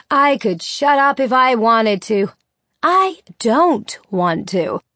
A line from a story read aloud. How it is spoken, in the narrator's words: the mother says in an even louder voice